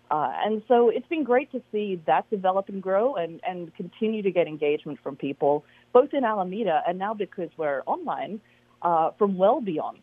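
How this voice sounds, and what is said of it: Slight Australian accent. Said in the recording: “am I hearing a little down under in your accent there?”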